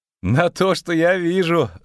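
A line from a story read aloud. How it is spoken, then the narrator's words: Laughing. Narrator (Russian): засмеялся Барт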